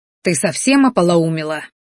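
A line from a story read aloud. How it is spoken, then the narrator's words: Angry hiss. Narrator (Russian): злобно зашипел, чтобы не нашлось лишних ушей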